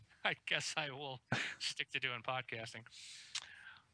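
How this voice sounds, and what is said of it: Usual voice. Nothing is said of it.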